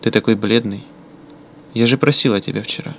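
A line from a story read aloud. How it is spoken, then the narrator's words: Pleading woman. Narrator (Russian): умоляющим тоном произнесла женщина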